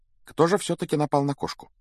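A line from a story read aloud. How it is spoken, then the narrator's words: Quiet, resuming conversation. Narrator (Russian): негромко спросила она, как будто продолжила прерванную беседу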